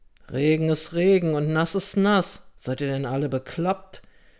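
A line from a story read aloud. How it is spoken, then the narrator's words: Mumble. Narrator (German): nuschelte Anselm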